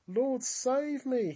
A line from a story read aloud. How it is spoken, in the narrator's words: he cried out